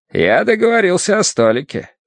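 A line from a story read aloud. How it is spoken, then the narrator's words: Cheerful. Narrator (Russian): весело сообщил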